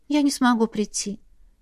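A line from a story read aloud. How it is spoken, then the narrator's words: Quiet, sad, sighing. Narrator (Russian): тихо сообщает Мирель и печально вздыхает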